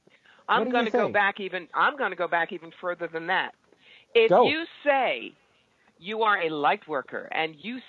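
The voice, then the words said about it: New York accent. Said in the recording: “I love the accent. ... The New York.”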